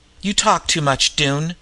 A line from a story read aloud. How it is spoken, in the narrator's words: Gregg said huskily